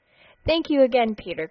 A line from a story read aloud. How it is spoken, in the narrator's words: cried Dotty